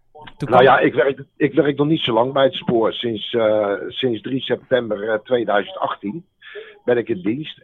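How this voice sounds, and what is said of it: Slight Hague Dutch accent. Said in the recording (Dutch): “het is een Haags accentje wat ik hier hoor ... een beetje wel. Maar niet, nog lang niet echt Haags hoor.”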